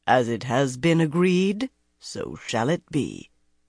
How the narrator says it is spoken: Quarren, plump and pompous, intoned

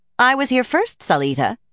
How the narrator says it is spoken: Zener said firmly

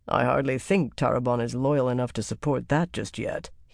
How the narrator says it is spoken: he said dryly

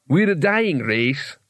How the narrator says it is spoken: said Quartz, sadly

